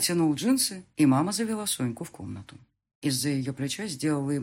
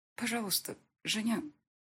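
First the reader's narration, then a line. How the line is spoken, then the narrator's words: Quiet speech. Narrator (Russian): тихо промолвила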